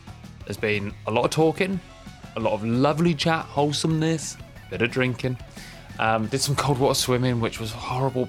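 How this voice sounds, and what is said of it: Croaky, worn-out voice. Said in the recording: “my voice is a bit croaky ... Can't even talk. Lost the ability”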